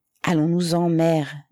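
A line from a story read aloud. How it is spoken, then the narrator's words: Plain. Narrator (French): dit Sisoph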